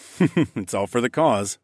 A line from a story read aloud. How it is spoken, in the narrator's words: I chuckled